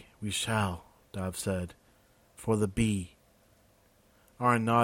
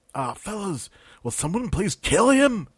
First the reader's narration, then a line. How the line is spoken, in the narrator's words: Peter yelled up